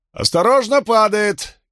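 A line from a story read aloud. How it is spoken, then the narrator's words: Shout. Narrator (Russian): он крикнул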